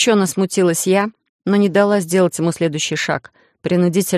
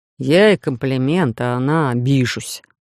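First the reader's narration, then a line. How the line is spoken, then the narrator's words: Nervous grumble. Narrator (Russian): снова проворчал Эдриш, и лишь сейчас я поняла, что он немного нервничает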